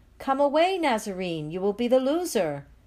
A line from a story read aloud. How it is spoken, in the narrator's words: People shout